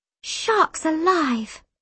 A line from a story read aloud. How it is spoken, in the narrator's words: Shona gasped